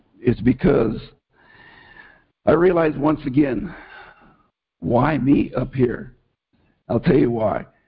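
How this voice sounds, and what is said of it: Emotional, choked-up voice. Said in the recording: “If I sound a little choked up”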